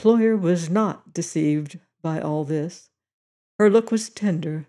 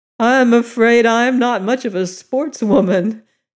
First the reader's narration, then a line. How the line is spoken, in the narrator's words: she said, laughing